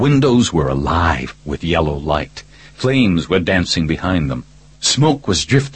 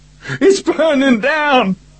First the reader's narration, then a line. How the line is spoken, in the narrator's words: Bobby screamed again